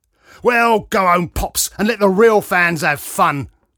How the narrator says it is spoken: growled Grey Ponytail

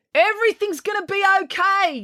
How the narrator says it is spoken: yelled Joe

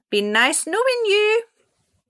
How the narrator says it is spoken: Salty cried

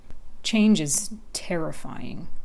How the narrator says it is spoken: the cat muttered

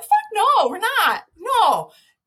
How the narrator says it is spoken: yelled back

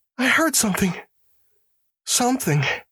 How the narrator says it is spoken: said the prisoner

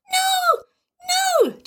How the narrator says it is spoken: Tim squeaked

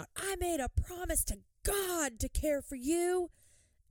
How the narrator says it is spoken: Ricky starts yelling out

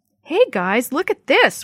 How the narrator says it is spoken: Willie shouted

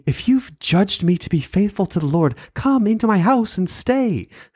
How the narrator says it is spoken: she begged us, saying

